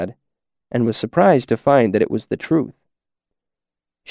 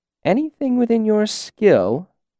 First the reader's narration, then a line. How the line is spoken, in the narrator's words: she repeated playfully